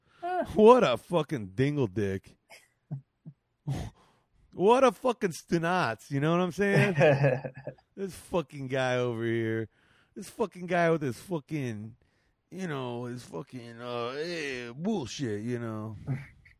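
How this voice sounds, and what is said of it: Exaggerated Italian-American guy impression. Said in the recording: “doing an impression of Richard Pryor doing an impression of Italian guys”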